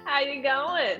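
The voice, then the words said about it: Put-on Australian accent. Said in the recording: “That's the extent of my Australian accent. Otherwise, it turns British.”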